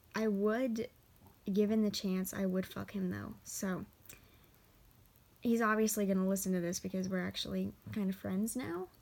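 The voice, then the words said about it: Hoarse voice. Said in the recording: “forgive my hoarse voice. I've been rage singing all day.”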